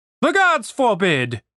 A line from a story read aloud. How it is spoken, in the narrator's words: cried the officer